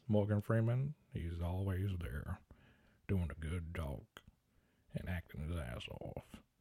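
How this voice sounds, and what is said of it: Bad Morgan Freeman impression. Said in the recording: “my bad Morgan Freeman impression”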